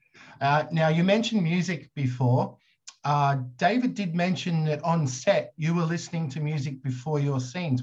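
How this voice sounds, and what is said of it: Australian accent. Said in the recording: “I've got this Australian accent”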